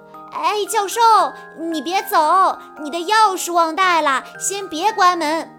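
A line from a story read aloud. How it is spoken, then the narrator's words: Anxious loud shout. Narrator (Chinese): 小西急得大喊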